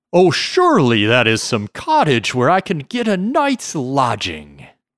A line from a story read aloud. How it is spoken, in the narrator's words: He exclaimed with joy